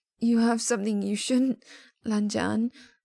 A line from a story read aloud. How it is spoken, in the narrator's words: he rasps